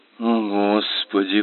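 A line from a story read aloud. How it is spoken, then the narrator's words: Sigh. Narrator (Russian): вздохнул Фрэнсис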